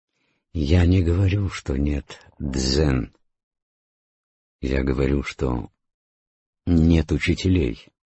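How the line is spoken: Plain. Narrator (Russian): ответил Обаку

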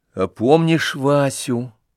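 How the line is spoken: Sad. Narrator (Russian): печально прибавил Костя

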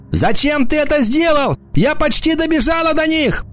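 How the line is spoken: Scream. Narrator (Russian): она закричала

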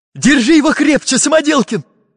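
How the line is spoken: Exclaim. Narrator (Russian): воскликнул Карандаш

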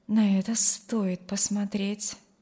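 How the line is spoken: Quiet. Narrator (Russian): добавила она тихо

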